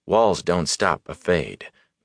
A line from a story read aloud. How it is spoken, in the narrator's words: Matt muttered